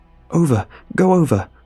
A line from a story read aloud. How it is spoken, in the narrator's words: I gasped